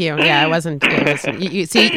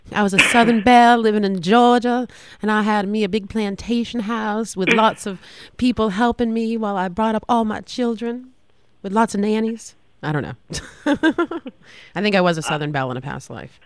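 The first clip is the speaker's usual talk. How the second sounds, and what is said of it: Put-on Southern belle accent. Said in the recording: “I'm going to become that Southern Belle ... it was good ... It was horrible”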